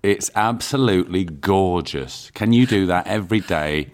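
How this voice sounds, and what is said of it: Sarcastic mock-praising tone. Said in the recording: “Yes, I'm being sarcastic.”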